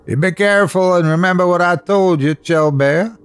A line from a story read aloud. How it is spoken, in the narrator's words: I hollered after her